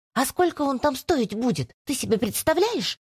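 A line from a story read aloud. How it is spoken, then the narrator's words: Very quiet hiss. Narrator (Russian): Прошипела Аделия ему вслед так тихо, чтобы не разбудить Настю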